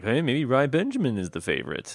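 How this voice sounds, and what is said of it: Impression of the co-host. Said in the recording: “Was that an impersonation of me, the co-host? ... Isn't that exactly how you sound?”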